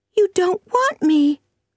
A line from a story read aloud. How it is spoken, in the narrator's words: cried the child suddenly